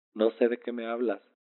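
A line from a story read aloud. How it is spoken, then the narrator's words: Laughing uncontrollably. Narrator (Spanish): le dije riendo mientras ella continuaba haciéndome cosquillas y yo reía sin parar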